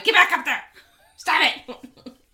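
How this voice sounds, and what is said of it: Yelling. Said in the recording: “I'm yelling at my books”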